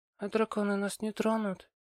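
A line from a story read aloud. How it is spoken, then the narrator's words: Quiet question. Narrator (Russian): тихо спросила Нина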